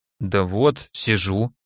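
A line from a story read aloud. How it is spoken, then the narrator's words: Mumbling. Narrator (Russian): промямлил я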